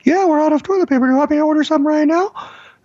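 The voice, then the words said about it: Bad impression of Alexa. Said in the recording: “my impression, Alexa. Bad impression.”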